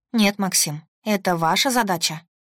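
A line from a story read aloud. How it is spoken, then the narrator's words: Calm. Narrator (Russian): спокойно ответила я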